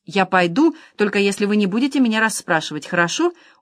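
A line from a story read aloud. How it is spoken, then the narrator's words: Pleading, faltering. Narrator (Russian): умоляюще пролепетала Клодин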